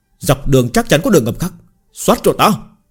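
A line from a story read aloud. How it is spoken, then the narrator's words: Roaring command. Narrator (Vietnamese): Trung Dương Húc gầm lên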